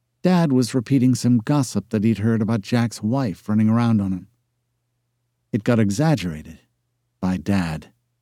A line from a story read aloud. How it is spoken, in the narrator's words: she muttered